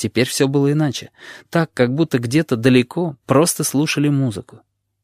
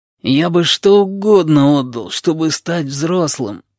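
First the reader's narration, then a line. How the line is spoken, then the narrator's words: Moaning. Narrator (Russian): простонал сиамец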